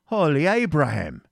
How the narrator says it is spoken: he exclaimed

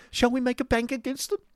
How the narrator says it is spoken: said Miss Squeers hysterically

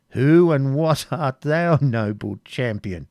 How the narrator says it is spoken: said Prince John, still laughing

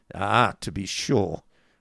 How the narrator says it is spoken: sneered Ralph

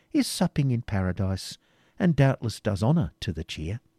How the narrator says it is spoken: continued the jester

